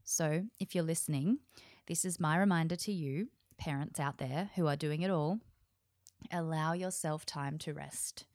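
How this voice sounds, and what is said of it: Slightly hoarse voice. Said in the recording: “my voice is a little hoarse today because I have a chest infection”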